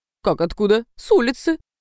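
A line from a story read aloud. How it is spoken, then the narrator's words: Laughing. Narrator (Russian): Немо засмеялся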